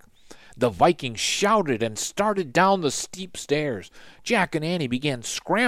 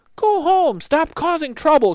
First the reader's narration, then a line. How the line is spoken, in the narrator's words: she yelled to the Vikings